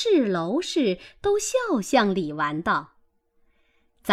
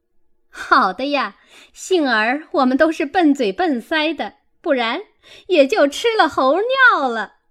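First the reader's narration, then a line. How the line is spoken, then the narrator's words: Laughing. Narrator (Chinese): 凤姐儿笑道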